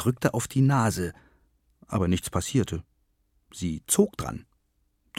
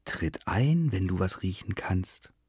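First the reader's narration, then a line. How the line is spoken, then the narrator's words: Whisper from a hole. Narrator (German): flüsterte es aus dem Loch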